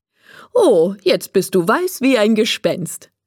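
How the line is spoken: Laughing. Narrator (German): sagt Frau Mischke und lacht

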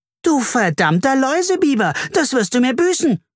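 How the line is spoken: Shouting. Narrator (German): schrie Carla

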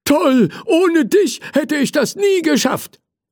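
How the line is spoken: Grateful firefighter calling out. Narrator (German): rief der Feuerwehrmann dankbar

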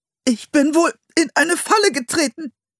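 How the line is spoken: Strained voice. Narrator (German): sagte er mit gepresster Stimme

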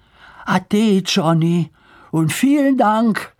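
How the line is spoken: Calling out. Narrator (German): rief Lars

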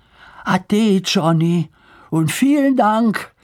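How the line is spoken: Called out. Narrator (German): rief Lars

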